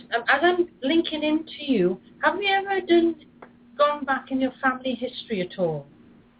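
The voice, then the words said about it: Accent with a slight twang. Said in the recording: “I have a little bit of twang in my accent”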